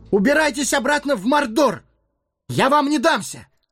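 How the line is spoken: Exhausted shout. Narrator (Russian): Собрав последние силы, хоббит крикнул

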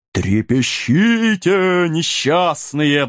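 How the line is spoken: Ghostly howl. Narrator (Russian): взвыл призрак

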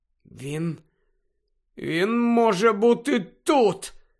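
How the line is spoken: Hoarse whisper. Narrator (Ukrainian): хрипло зашепотів Гаррі

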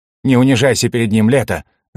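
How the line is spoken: Sharp woman's voice. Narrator (Russian): резко произнесла вторая женщина

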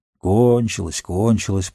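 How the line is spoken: Grumbling. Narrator (Russian): проворчал Сэм

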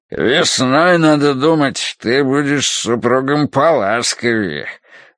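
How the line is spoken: Deep bass voice. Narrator (Russian): пробасил он

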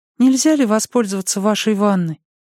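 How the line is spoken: Timid child's question. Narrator (Russian): дочурка Мэнди, 11 лет, робко спросила

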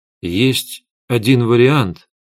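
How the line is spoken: Uncertain. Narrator (Russian): неуверенно сказал я

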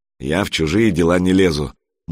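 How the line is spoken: Gloomy little troll. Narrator (Russian): мрачно отозвался маленький тролль

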